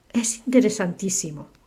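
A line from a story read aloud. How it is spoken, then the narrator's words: Plain. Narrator (Spanish): dijo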